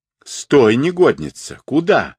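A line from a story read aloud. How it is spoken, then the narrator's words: Triumphant shout. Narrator (Russian): закричал великий мудрец, предвкушая победу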